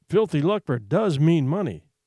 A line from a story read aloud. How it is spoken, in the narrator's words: said the mother